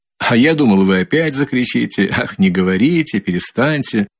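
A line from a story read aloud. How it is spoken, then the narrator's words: Strained laugh. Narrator (Russian): засмеялся Раскольников, но как-то с натугой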